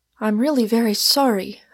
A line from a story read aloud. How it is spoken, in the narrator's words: I cried